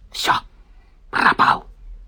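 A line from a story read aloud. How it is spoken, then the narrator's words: Tragic whisper. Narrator (Russian): Кирюшка трагическим шепотом произнес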